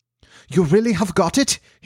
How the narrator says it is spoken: he cried, looking eagerly

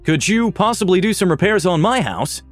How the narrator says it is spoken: chuckled

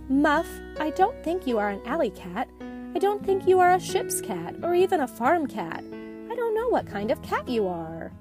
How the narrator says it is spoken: Muff's mother sighed and said

